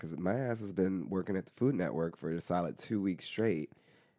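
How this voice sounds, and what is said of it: Low, congested sick-sounding voice. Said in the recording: “I have an upper respiratory infection, so I'm talking like this ... it sounds like Big Ange with sinusitis ... From that lower register?”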